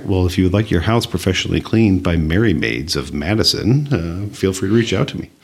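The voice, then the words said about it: Deep radio announcer voice. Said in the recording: “that's a good radio that voice you just voice ... a little bit lower”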